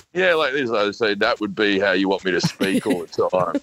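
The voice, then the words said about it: Uncanny Chris Hemsworth Australian accent. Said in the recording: “The Australian accent has never done it for me before, but on him... That's uncanny.”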